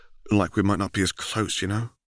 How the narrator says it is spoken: He sighed

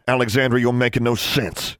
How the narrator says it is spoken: snapped

